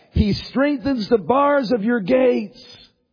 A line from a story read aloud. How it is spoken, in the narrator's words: the sopranos lifting their high notes, those soaring high notes above all the rest of the choir as they shout